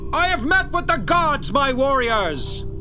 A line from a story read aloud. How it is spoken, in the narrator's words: He shouts into the wind